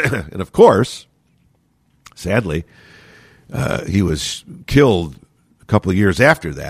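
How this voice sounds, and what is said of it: Usual voice. Nothing is said of it.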